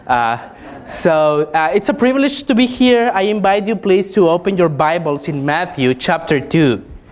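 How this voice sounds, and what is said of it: Mexican Spanish accent in English. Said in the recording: “my horrible accent, it's because I'm from Mexico”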